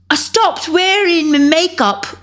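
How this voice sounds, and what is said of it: Bad imitation British accent. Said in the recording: “my bad British impersonation ... I have the worst British accent impersonation or whatever, ever”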